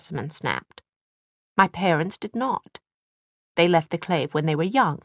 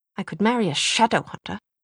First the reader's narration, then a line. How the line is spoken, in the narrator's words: Jessamine spat out the word